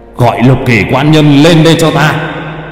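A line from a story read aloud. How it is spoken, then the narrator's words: Loud commanding shout. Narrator (Vietnamese): Thiên phụ quát lớn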